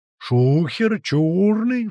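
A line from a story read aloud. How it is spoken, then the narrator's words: Howled, wolf. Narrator (Russian): взвыл волк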